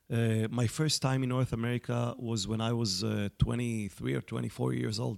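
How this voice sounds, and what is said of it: Israeli accent. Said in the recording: “I'm an Israeli, as people can detect from my accent.”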